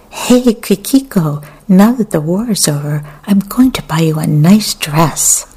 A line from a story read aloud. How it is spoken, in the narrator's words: Sucking the candy theatrically, said in an enraptured tone